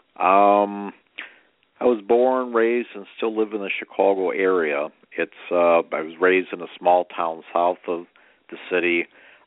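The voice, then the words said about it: Chicago accent. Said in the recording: “So you can hear that probably in my Chicago accent”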